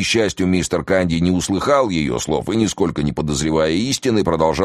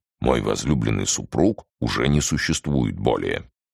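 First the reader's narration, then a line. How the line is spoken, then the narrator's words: Quiet voice. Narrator (Russian): проговорила тихим голосом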